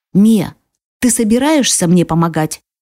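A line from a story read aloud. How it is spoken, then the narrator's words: Stern question. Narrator (Russian): строго спрашивает она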